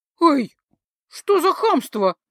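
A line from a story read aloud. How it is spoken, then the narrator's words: Indignant squeak. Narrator (Russian): Возмущенно пискнула я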